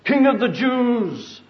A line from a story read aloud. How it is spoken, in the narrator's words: mockingly